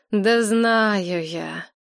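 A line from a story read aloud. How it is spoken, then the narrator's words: Sighed again. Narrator (Russian): Надежда снова вздохнула, ничуть не удивившись Машкиной просьбе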